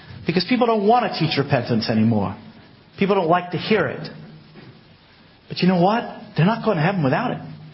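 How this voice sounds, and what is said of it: American accent. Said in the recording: “I know I sound American, but I was born in Exeter”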